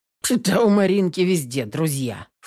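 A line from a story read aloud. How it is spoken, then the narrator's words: Snort. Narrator (Russian): фыркнул Потапов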